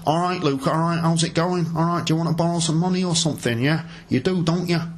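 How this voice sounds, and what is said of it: Attempted Mancunian accent, poorly done. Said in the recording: “Mr. Bank Manager, who speaks with a Mancunian accent from Manchester ... This accent's gone wrong. Yes, that accent has gone wrong.”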